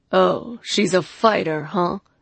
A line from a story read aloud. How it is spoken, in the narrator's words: The leader chuckled some more